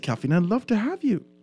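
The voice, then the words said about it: Soft, polite imitated female voice. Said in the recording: “this might be a bad impression... she speaks soft and polite”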